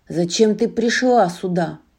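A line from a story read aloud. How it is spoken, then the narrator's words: Growling creature. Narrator (Russian): прорычало оно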